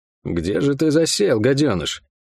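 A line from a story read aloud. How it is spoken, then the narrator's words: Hissed through clenched teeth. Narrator (Russian): не разжимая зубов, процедил он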